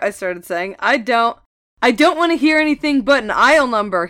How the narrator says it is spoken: he yelled, interrupting me

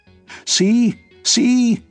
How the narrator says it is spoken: shouted Tom

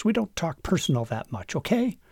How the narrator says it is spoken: She snapped

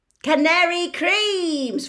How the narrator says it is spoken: Fred shouted to the excitable crowd

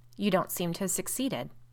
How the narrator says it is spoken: remarked Caroline dryly

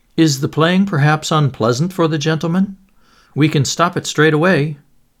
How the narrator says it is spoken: Gregor's father called out

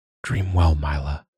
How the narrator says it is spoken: Joa murmured

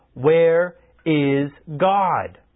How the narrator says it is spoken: the clergyman repeated the question in an even sterner tone

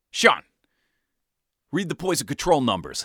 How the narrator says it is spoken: barked

